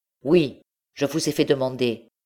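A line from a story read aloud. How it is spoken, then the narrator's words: Exclaiming. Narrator (French): s'écria M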